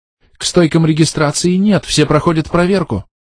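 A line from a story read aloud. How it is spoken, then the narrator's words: Frightened. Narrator (Russian): испуганно сказала она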